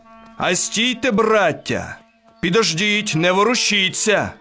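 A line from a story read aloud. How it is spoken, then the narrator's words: Shout to a group. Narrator (Ukrainian): крикнув на козаків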